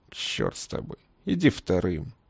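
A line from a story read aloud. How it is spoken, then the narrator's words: Quiet, secretive. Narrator (Russian): Тихо, чтобы не услышали мула и слон, произнес Хамид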